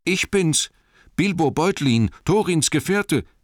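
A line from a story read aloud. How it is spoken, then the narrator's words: Calling out. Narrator (German): rief er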